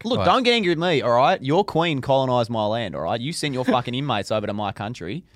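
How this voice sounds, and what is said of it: Put-on Australian accent. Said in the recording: “Are you actually going to do the Australian accent for the whole thing? Because this is ridiculous.”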